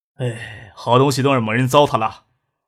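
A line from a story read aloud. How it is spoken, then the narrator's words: Regretful sigh. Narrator (Chinese): 邵志刚又故意叹了一口气，惋惜的说道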